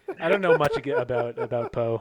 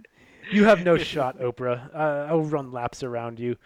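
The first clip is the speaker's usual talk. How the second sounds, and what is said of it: Put-on accent. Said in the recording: “I don't know what that accent was ... You don't have to use any accent.”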